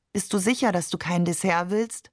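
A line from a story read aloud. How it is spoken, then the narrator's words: Plain. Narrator (German): fragte ihn Maman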